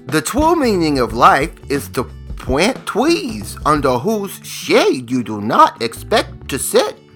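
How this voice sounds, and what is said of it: Imitates a cartoon character's voice. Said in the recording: “my incredible impression skills ... That was Tweety Bird ... I was in the Looney Tune family ... I was so good at that impression”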